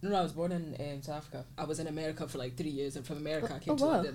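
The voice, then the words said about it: Scottish accent. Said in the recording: “you've got a Scottish accent ... Like sometimes you could be really Scottish, and then other times you just throw a wee bit.”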